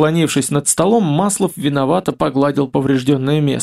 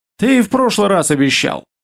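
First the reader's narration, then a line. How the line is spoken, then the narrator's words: Snorted. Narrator (Russian): Хмыкнул Игорь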